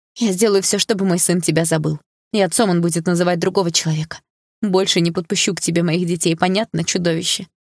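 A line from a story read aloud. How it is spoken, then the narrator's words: Trembling voice. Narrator (Russian): сказала дрожащим голосом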